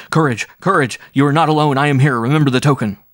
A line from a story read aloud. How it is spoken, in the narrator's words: shouting loudly